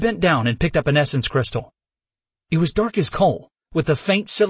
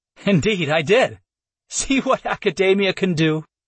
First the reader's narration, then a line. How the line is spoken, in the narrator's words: she said with a laugh